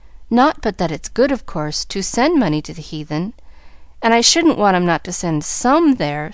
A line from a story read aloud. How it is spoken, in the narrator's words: sighed Pollyanna to herself, as she trudged sorrowfully along